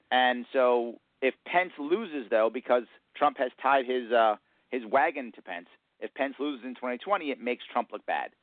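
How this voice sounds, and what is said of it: New York accent. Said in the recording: “you definitely have that New York accent going”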